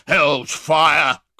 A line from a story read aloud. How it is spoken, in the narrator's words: cried Sykes, breaking fiercely from the Jew